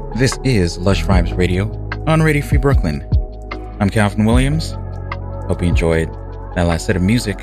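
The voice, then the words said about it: Calm radio announcer voice. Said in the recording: “the calm radio announcer voice”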